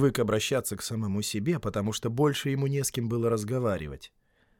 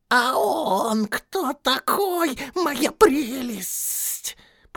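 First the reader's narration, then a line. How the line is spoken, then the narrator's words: Hissed. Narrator (Russian): прошипел Голлум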